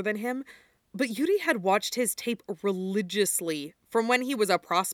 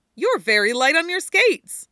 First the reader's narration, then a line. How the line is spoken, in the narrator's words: Viktor exclaimed